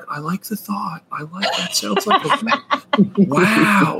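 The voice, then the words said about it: Imitates another person's voice. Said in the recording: “That was a good impression. That was honestly really good.”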